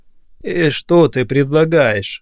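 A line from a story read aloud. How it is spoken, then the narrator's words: Tired old man asking. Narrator (Russian): устало спросил дед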